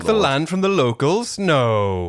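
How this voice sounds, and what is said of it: Sarcastic put-on Sheffield accent. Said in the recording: “Is that the Sheffield accent again? ... That was my, sarcastic Sheffield.”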